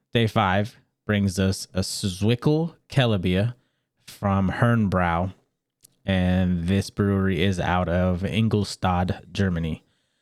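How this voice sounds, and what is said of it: Congested, very nasal voice. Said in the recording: “you can hear it in my voice, I am under the weather ... I'm very nasally ... please excuse if I sound terrible”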